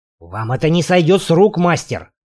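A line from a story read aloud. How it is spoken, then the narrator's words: Hissing fat man. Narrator (Russian): прошипел толстяк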